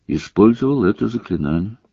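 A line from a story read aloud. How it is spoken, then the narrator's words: Plain. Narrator (Russian): сказал Гарри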